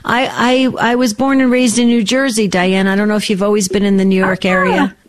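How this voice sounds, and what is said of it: East Coast American accent. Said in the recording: “a little of my back east accent”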